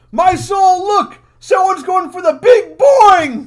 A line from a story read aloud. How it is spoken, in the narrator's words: one guy's pointing and yelling